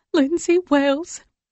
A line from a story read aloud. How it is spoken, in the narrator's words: she stutters out